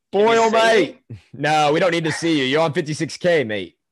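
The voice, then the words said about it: Pretty good put-on Australian accent. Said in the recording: “That was a pretty good Australian accent you had there.”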